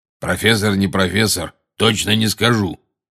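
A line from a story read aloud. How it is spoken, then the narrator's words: Growling. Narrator (Russian): прорычал голос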